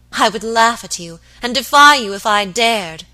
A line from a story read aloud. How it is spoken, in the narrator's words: she cried